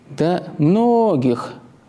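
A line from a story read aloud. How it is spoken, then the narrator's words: Drawling. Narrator (Russian): протянул диакон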